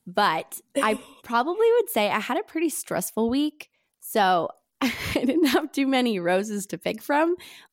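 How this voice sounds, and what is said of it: Stuffy, congested voice. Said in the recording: “I have a cold, so I'm sorry if I sound a little gross.”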